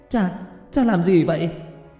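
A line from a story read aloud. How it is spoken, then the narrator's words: Shouted. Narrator (Vietnamese): Hứa Tiểu Lan nhìn thấy điều đó thì hét lên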